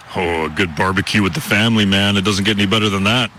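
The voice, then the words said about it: Rich radio-style voice. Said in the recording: “He's got a great radio voice”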